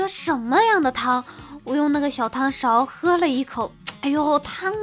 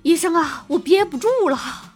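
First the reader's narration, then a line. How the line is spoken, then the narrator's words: Sudden, gasping for breath. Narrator (Chinese): 突然 可一蛋就大喘气说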